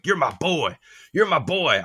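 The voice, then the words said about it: Imitates another person's voice. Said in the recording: “I'm doing the voice, but this is like how the quote sounded in my head because just the vernacular he was using”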